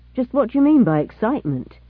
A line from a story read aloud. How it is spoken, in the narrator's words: said Gibson anxiously